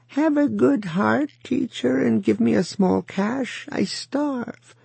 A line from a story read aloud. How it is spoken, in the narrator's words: a beggar passing whined at him